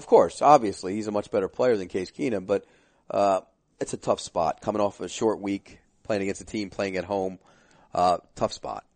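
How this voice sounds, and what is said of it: Hoarse, throaty voice. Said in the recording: “Pete just continues to cough and cough and cough ... my voice is going. I got a frog in my throat ... you got something in your throat”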